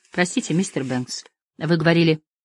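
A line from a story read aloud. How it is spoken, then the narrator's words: Quiet. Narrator (Russian): мисс Гайвенс тихо произнесла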